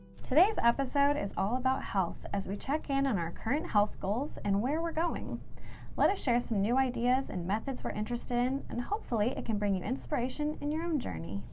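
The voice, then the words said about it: Polished radio commercial voice. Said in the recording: “Sounds so like radio voice commercial... like too fancy for us... It's really fancy.”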